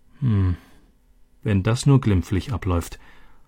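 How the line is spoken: Murmur. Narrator (German): murmelte Elena

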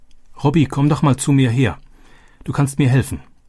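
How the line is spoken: Called out. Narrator (German): rief sie

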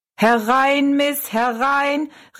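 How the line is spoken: Calling out. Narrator (German): rief er Rosalie zu

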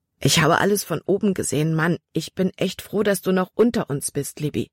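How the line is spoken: Plain. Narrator (German): sagte Caleb nun

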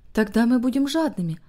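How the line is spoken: Quiet, joyful voice. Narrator (Russian): ответила Дели тихим и радостным голосом

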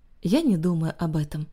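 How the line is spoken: Plain. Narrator (Russian): ответила розовощекая

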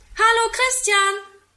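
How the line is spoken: Call from window. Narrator (German): ruft aus dem Fenster

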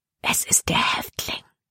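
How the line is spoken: Whispering. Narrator (German): flüsterte sie Caleb zu

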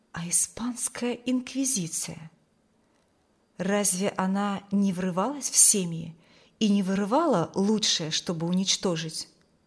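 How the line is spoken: Imagined whisper. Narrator (Russian): словно кто-то шепнул ей

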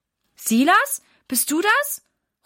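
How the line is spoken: Mother calling. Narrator (German): ruft Mama

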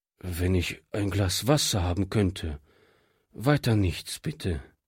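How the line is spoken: Tired refusal. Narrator (German): wehrte dieser müde ab

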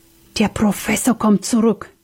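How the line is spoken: Panicked whisper. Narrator (German): wisperte Sam voller Panik

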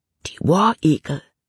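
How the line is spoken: Whispered. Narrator (German): flüsterte Jordan

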